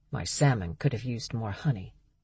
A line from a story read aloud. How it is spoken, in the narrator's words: Berg muttered